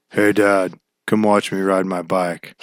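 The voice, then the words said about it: Imitates a child in a deep voice. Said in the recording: “he talks like this ... Pretty sure his voice is deeper than mine.”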